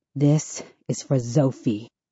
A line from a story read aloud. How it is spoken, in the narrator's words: I mutter